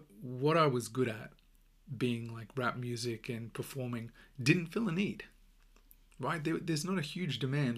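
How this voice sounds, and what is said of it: Australian accent. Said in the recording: “my accent is Australian”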